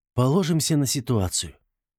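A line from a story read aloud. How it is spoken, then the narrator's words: Uncertain. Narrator (Russian): неуверенно произнес Артам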